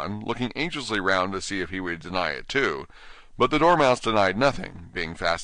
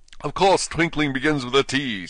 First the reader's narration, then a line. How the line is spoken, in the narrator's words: said the king sharply